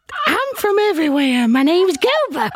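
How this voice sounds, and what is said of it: Dog character voice, unplaceable accent. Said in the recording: “What is that accent? ... I was expecting it to sound more dog-like ... the diction is so great on this dog”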